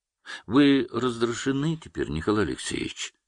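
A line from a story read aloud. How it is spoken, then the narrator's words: Calm. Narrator (Russian): спокойно сказал он Хмелеву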